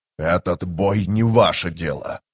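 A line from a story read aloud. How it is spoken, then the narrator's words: Hissed. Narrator (Russian): прошипел Гитол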